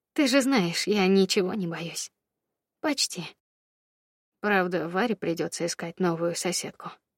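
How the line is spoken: Sighing. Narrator (Russian): вздохнул Федя

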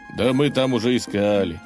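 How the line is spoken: Sigh. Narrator (Russian): вздохнул Илья

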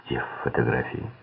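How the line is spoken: Plain. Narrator (Russian): спросил Силк

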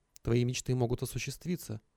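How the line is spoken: Devil's whisper. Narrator (Russian): шептал мне дьявол

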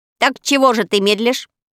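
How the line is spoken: Angry crow shouting. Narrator (Russian): сердито крикнула ворона

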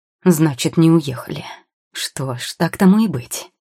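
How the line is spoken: Growled. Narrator (Russian): прорычал

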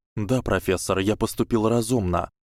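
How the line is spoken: Calm reply, boy. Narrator (Russian): спокойно ответил мальчик

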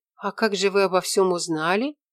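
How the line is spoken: Gentle smiling question. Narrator (Russian): мягко улыбнувшись, поинтересовалась Мирослава

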